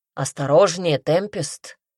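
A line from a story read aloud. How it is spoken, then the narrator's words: Stern. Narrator (Russian): строго сказал Мадрид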